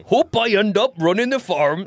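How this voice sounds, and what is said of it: Old gruff man's voice. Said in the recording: “a little 70s farmer kid ... that's an adult old voice ... Old gruff man.”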